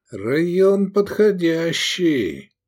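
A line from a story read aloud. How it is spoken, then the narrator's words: Drawled. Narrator (Russian): протянул Искандер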